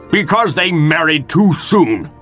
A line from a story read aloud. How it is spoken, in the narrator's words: snapped Capulet